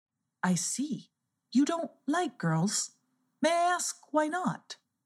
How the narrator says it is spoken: asked very calmly

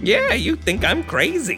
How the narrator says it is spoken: repeated, and he laughed

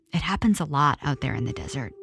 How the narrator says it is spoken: She whispered

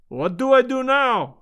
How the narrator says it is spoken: he cried

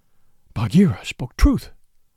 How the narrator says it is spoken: he panted

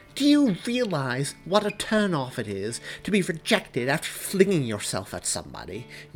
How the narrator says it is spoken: Mary demanded, storming

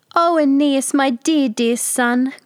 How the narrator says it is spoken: groaned Daphne

